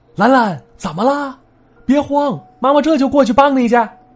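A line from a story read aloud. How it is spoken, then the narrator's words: Anxious shout. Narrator (Chinese): 刘大妈看着着急，喊了一嗓子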